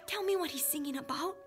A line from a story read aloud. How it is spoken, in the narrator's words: I whispered